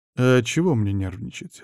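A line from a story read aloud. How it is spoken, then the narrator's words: Calm. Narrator (Russian): спокойно ответил я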